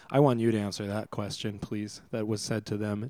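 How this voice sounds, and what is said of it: Calm, measured public-radio voice. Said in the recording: “I am using my NPR voice.”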